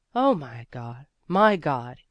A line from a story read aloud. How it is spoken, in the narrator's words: exclaimed the stranger again